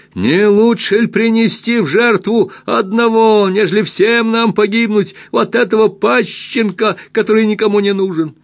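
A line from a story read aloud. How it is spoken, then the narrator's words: Shouting with full force. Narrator (Russian): один из них закричал, что есть силы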